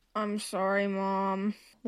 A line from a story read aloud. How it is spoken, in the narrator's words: Levi moaned